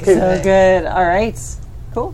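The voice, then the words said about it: Irish accent. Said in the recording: “I'm still talking Irish, sorry.”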